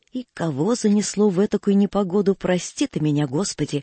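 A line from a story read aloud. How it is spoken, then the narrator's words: Old man grumbling. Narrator (Russian): ворчал старый Федотыч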